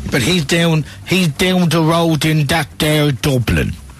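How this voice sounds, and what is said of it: Put-on Dublin accent. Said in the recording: “that's an authentic, genuine Dublin accent”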